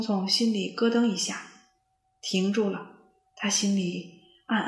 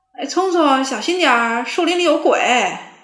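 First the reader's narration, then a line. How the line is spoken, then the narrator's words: Shouting from behind. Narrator (Chinese): 沃尔夫在后面喊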